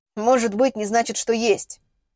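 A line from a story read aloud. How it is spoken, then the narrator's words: Snorting. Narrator (Russian): фыркнул Ростислав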